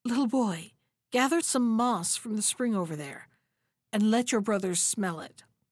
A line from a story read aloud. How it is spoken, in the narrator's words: The heart of the bear chief's sister was moved when she saw their misery, and she whispered